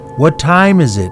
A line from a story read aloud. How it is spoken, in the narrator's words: called out to the stranger, asking him